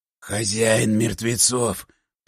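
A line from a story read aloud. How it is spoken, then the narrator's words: Creaky voice. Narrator (Russian): проскрипел он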